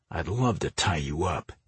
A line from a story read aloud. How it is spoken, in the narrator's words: he muttered